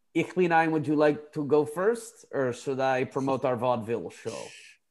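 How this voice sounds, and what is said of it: Put-on German accent. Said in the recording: “it's hard to keep the German accent”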